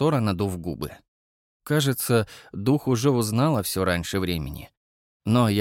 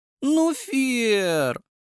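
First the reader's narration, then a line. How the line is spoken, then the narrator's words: Moan. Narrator (Russian): застонала Сора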